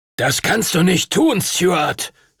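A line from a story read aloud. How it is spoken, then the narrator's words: Thundering shout. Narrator (German): rief er donnernd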